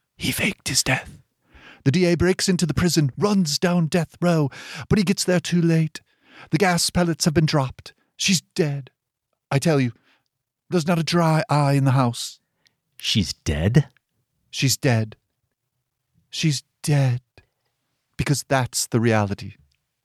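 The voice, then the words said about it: Generic British accent, Princess Diana. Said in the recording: “maybe your best accent work ever ... totally generic British guy accent ... Elizabeth Debicki's Princess Diana from The Crown”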